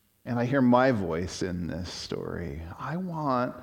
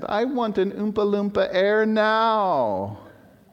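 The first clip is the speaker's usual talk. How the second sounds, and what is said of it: Put-on British accent, spoiled whine. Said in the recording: “I hear the British accent.”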